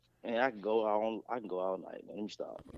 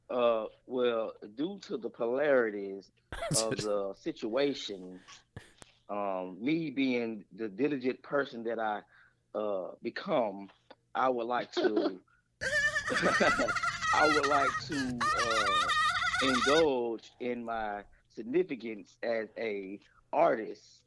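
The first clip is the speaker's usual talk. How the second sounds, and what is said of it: Imitates another person's voice. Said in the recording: “Let me hear your T.I. impersonation ... Let me hear that T.I. impersonation.”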